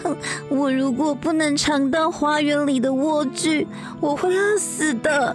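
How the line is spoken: Crying. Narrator (Chinese): 艾丽亚哭着说

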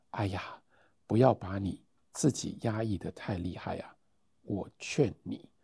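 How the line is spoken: Low, slightly hoarse. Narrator (Chinese): 用微带沙哑的喉咙低低地说

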